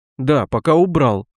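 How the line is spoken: Mumble. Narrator (Russian): пробормотал я

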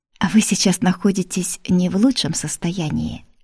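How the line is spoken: Gentle. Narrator (Russian): мягко продолжил доктор

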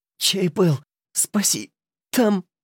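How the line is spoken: Breathless strained wheeze. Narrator (Russian): задыхаясь, с надрывом просипела

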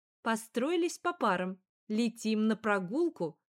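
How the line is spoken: Stern old bee. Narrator (Russian): строго сказала старая пчела-воспитательница Жужжана Тимофеевна

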